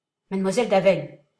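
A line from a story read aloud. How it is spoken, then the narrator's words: Cutting voice. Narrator (French): déclara le jésuite d'une voix coupante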